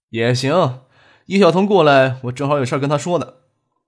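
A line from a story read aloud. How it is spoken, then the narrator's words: Sighing. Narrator (Chinese): 张克叹了一口气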